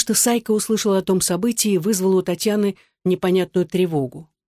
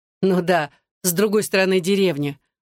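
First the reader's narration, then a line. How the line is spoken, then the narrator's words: Laughing. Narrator (Russian): снова засмеялся Паша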